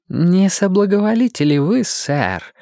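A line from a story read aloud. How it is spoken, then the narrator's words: Silky question. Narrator (Russian): спросил он шелковым голосом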